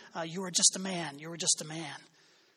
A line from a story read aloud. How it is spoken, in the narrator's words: slave would whisper into the imperial person's ear